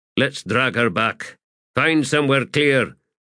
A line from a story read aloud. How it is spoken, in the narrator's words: grunted Fiddler